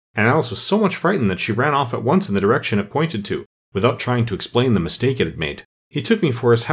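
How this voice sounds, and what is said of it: Usual voice. Nothing is said of it.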